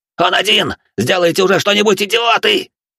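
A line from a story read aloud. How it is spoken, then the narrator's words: Shouted. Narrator (Russian): выкрикнул Бака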